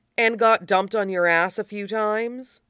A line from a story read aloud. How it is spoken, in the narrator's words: he offers blandly